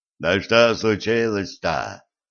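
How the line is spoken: Booming, frightened. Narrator (Russian): прогудел Митя, испуганно

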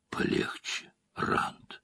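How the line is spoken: Quiet remark. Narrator (Russian): тихо заметил Перин

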